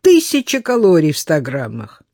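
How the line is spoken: Laughing. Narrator (Russian): засмеялся Денис

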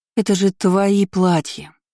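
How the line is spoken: Moaning. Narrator (Russian): простонала она

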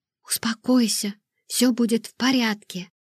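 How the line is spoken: Whisper. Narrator (Russian): прошептала я

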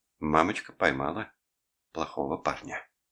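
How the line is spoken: Tender, lullaby-like. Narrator (Russian): повторила Деб нежным голосом, будто пела Николасу колыбельную

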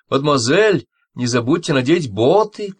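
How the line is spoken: Shout. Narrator (Russian): крикнула Анн-Мари

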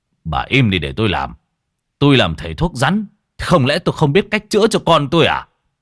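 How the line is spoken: Husband scolding. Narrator (Vietnamese): Bị chồng nạt

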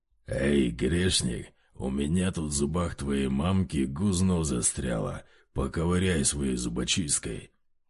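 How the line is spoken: Thunderous guffawing, huge devil. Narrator (Russian): Здоровенный пузатый черт гоготал так, что от его хохота сотрясалась сама преисподняя

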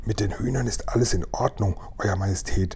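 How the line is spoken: Whisper. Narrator (German): flüsterte Tibbs

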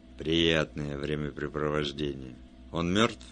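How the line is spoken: Said gloomily. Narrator (Russian): Он сказал мрачно

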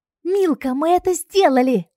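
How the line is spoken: Delighted squeal. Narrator (Russian): восторженно взвизгнула подруга

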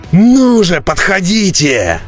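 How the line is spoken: Roaring. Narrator (Russian): взревел Бреннер, неверно расценивая их намерения

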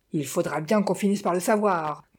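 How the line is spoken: Menacing growl. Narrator (French): gronda Madame Montparnasse d'un air menaçant

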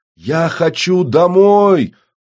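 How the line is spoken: Wailing. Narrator (Russian): взвыл в ответ Кросс

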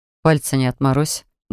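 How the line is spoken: Grumbling mutter from behind. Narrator (Russian): буркнул мне в спину чародей

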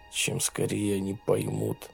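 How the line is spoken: Mutter. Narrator (Russian): бормотал он

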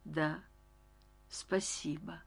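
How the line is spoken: Uncertain speech. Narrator (Russian): неуверенно сказала

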